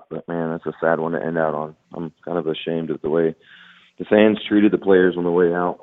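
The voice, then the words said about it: Hoarse, worn-out voice. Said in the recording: “as you can tell, my voice is pretty much shot”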